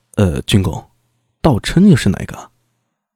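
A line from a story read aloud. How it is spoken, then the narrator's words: Soft, stunned. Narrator (Chinese): 苏大为愣了一下，愕然的轻声道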